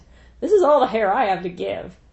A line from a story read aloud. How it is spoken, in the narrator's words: She laughed and said